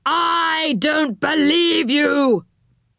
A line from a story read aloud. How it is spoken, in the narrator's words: cried the enchanter